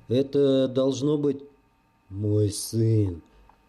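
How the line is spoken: Strange altered voice. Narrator (Russian): не своим голосом произнес наемник

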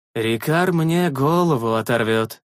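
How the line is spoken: Crushed mutter. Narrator (Russian): Убито пробормотал глава охотников

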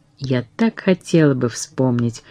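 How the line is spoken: Sad. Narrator (Russian): произнес он печально

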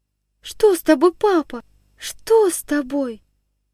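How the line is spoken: Frightened questioning. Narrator (Russian): Испуганно спрашивала отца княжна Аля

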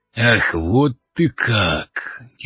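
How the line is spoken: Bull's growling voice. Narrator (Russian): теперь голос рыжего быка больше походил на рычание

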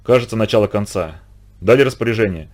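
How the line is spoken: Quiet question. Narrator (Russian): тихо спросил Горностаев у Микешина

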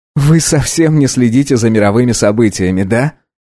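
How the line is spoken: Laughing. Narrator (Russian): рассмеялся Марк

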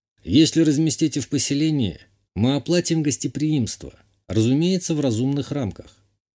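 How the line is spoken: Calm. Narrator (Russian): спокойно сказал я

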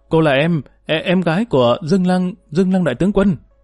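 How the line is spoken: Stammering, blurted. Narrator (Vietnamese): Hắn ấp a ấp úng một lúc rồi buột miệng nói bừa

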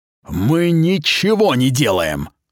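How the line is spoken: Growled. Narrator (Russian): прорычал он

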